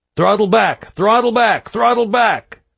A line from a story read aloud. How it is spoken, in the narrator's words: the crew chief yelled